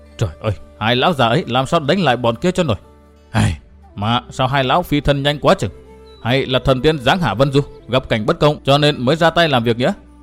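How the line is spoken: Muttering, lamenting to himself. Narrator (Vietnamese): gã đành lẩm bẩm than thở một mình

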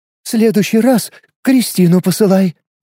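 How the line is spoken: Exhausted gasp, girl. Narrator (Russian): выдохнула девушка и рухнула

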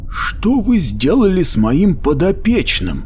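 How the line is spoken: Hoarse question. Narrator (Russian): сипло спросил Браслок

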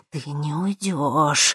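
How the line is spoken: Muffled, hollow voice. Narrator (Russian): глухо произнесла

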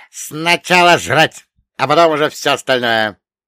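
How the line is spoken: Peremptory roar. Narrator (Russian): безапелляционно проревел Черномор

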